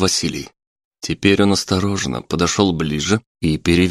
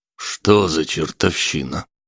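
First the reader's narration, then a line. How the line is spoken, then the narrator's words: Old man mumbling. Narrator (Russian): пробормотал дед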